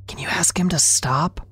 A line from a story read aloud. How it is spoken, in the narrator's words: whispered